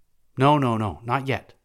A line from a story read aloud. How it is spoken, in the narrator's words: exclaimed the Sufid